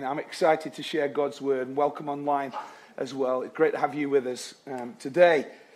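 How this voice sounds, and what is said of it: Sick, strained chest and throat voice. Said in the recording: “please excuse my voice this morning. I've got the lurgy ... It's in my chest and throat”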